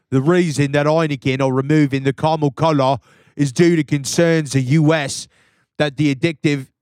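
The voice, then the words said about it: Put-on Newcastle English accent. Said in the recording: “I pivoted accents real quick ... I wonder how close your accent it was to the Newcastle accent”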